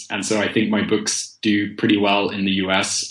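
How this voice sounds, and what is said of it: British accent. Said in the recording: “people like a British accent”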